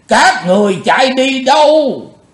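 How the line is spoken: Loud roar. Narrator (Vietnamese): gầm to lên

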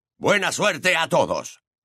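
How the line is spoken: Shouted. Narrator (Spanish): gritó Moody

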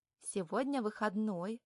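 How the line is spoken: Gentle reminder. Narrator (Russian): ласково напоминаю

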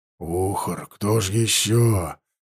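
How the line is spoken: Hopeless warrior's voice. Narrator (Russian): безнадежным голосом ответил воин

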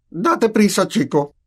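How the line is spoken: Exclaimed from another room. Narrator (Spanish): exclamó tío Vernon desde la cocina

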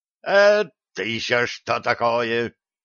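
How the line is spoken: Yelling over howling. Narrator (Russian): Перекрывая вой, заорал Черныш, вперев гневный взгляд

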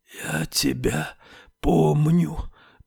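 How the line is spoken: Hoarse hissing whisper. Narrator (Russian): произнесла она хриплым свистящим шепотом

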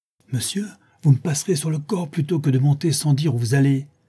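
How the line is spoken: Exclaiming. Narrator (French): s'écria Madame Pipelet

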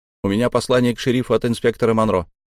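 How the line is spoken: Rapid patter. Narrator (Russian): протараторил я

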